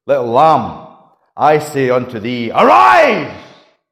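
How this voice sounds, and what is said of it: Dramatic, raised voice with emphasis. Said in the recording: “I like to be a little bit dramatic. And I quite like raising my voice a little bit like that, and giving emphasis.”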